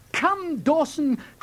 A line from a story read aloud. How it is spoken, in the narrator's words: cried Basil